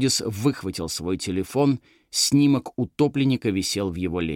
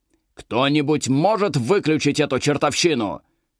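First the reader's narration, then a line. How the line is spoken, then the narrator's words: Shouting. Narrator (Russian): крикнул Беллос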